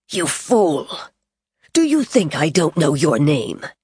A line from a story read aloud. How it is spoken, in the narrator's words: he leaned forward and said harshly